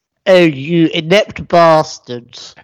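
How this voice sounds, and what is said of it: Put-on southern English accent. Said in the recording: “i said that in a southern accent”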